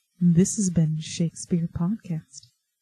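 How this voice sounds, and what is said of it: Soft ASMR-style public radio voice. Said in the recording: “Are you trying to do your ASMR NPR voice?”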